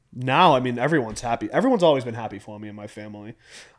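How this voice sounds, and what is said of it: Boston accent. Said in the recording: “they'd say I wasn't from Boston ... Being from East Boston ... I have, like, that little dialect I can't get rid of”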